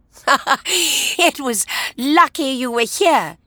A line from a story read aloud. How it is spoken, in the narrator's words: she laughed